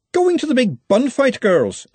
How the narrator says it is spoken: said Verity cheerfully

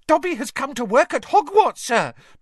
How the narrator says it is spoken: Dobby squealed excitedly

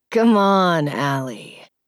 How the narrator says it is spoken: he said, his voice deep

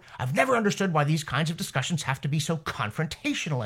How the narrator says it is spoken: Wilkinson snapped

